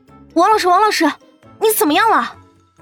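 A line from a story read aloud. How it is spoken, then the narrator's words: Urgent shouting. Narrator (Chinese): 一边喊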